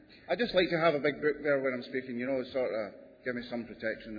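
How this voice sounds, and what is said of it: Canadian accent. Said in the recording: “This is the original Canadian accent I'm speaking in.”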